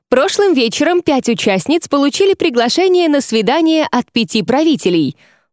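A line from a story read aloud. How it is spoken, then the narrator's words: Cheerful lively young woman announcing. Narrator (Russian): бодрым голосом вещала задорная рыжая девушка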